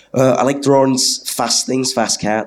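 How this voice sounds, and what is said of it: Poor put-on Scouse accent. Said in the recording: “That's my Scouse accent. It's terrible.”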